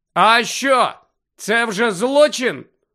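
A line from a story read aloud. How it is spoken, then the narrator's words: Loud question. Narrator (Ukrainian): голосно запитав Фред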